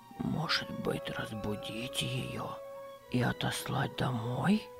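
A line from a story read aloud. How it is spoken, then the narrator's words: Whispered question, old man. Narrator (Russian): шепотом спросил старик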